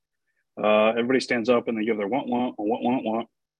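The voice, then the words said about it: Charlie Brown teacher's muffled wah-wah voice. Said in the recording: “my Charlie Brown teacher impression.”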